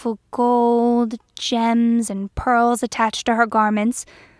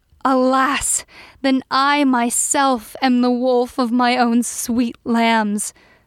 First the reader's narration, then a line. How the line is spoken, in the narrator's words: cried the king